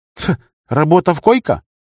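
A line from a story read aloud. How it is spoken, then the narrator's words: Skeptical snort. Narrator (Russian): Рагна скептически фыркнула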